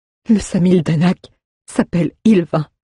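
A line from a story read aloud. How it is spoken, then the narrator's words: Stammering, bleeding mouth. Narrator (French): balbutia-t-il alors que du sang coulait le long de ses lèvres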